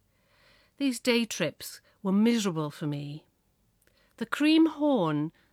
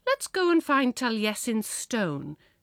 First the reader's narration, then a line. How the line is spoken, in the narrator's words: must have said brightly